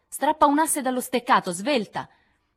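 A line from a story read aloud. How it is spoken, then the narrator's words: Shouted. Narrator (Italian): la voce di Lori gridò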